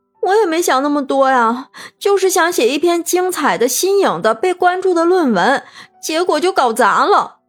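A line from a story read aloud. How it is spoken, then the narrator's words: Crying on the phone. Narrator (Chinese): 文玉哥在打电话，他哭泣着说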